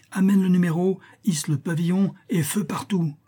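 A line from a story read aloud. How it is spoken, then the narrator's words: Hermit's loud exclamation. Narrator (French): s'écria l'ermite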